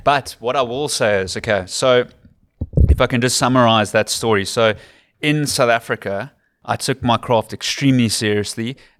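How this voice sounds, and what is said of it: South African Cape Town accent. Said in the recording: “my accent is too Western Capey. It's too Cape Townian.”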